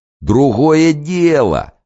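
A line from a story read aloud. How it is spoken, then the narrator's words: Joyful exclamation. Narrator (Russian): радостно воскликнул банщик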